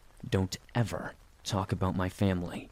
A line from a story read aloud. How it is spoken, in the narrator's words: I said through clenched teeth